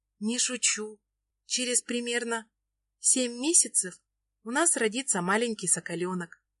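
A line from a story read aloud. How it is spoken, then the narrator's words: Whispering. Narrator (Russian): шепчет Настя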